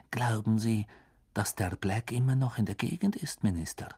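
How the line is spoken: Whispered. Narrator (German): flüsterte Madame Rosmerta

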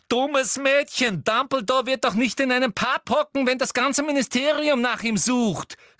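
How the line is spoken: Disappointed woman calling out. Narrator (German): rief Umbridge, und die Enttäuschung war in jede hängende Falte ihres Gesichts geschrieben

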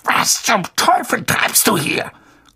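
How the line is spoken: Growled through clenched teeth. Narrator (German): knurrte Onkel Vernon mit zusammengebissenen Zähnen

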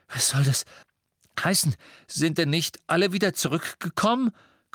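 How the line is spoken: Panting. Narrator (German): keuchte Harry

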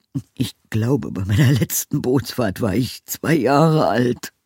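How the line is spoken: Groaned. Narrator (German): stöhnte Knallwinkel

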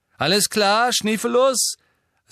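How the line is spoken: Loud. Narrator (German): sagte James laut

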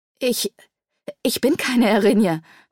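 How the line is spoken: Stammering. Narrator (German): stammelte

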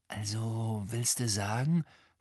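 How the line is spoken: Whispering. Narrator (German): flüsterte Ron, als Madame Pince leise quietschend vorbeirauschte

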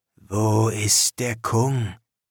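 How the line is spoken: Hoarse question. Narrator (German): fragte heiser

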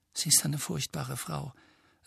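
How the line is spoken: Quiet voice. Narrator (German): sagte Hermine mit leiser Stimme

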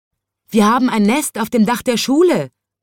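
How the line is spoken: Calling out. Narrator (German): rief sie

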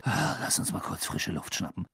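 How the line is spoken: Muttered. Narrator (German): murmelte Ron Harry zu

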